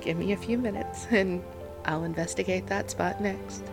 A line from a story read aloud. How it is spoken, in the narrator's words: he chuckled